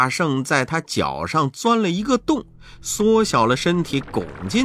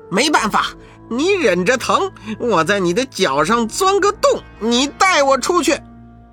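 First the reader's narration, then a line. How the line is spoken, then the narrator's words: Calling out. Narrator (Chinese): 悟空叫道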